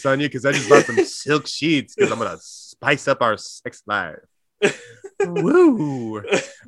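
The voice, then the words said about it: Exaggerated anchor ad bedroom voice. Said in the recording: “do his anchor ad voice ... my bedroom voice”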